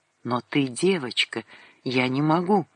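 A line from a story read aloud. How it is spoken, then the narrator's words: Whisper. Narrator (Russian): Сандрик … прошептал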